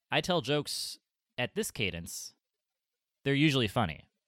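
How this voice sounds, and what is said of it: Imitates another person's speech cadence. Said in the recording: “Was that your impression? ... That's my impression. ... It's one of those like Obama impressions where you don't sound at all like him, but you just try to hit the timing.”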